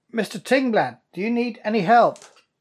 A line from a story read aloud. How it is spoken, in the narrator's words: say quite loudly